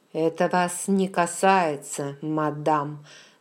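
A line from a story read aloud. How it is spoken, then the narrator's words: Through clenched teeth. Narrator (Russian): сквозь зубы процедил Джейми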